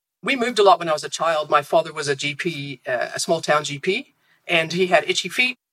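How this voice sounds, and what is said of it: Composite, mixed antipodean English accent. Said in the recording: “you have acquired the accent, I hear. ... It's a bit of a composite. I always say that it's a corrupted accent because it's been mishmashed with so many other things.”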